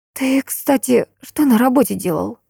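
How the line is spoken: Forced out. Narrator (Russian): Выдавила я

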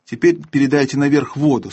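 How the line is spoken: Plain. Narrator (Russian): сказала первая мышь

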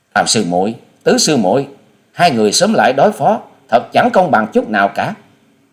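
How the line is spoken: Anxious hurried shout. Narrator (Vietnamese): Thần Hưng Linh trong lòng của nàng lo lắng muôn phần, vội hét lên

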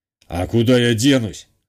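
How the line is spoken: Snorting smirk. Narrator (Russian): хмыкнул

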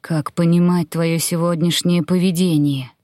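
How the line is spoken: Sighing. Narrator (Russian): Вздохнула

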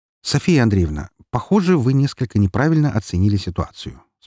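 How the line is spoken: Calm. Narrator (Russian): спокойно произнес я

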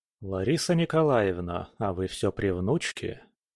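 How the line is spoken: Soft. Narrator (Russian): мягко проговорил Кирилл

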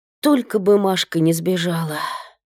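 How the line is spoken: Worried sigh. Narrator (Russian): озабоченно вздохнула Тамара

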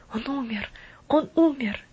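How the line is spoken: Murmured whispers from a crowd. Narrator (Russian): Ропот разливался по всем направлениям холма, и в нем слышались шепотом повторяемые лишь слова

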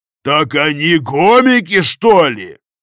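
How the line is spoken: Sergeant roaring. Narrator (Russian): взревел сержант

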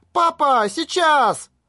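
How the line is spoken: Shouted at full voice. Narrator (Russian): Юи во все горло прокричала

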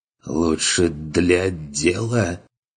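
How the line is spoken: Strained, forced out. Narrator (Russian): выдавил тот через силу

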